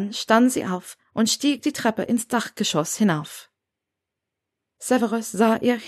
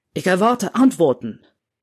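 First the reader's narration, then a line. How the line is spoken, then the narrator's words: Called out. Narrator (German): rief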